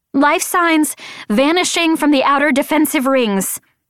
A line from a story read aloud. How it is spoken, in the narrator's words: shouted the woman